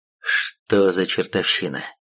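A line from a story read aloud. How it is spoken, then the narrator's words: Incredulous mutter. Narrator (Russian): пробормотал демон, не веря своим глазам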